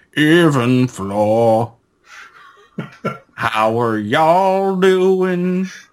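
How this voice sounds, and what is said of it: Fake Alabama Southern accent. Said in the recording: “I enjoy your fake Alabama accent... give me like a fake Alabama Scott Stapp”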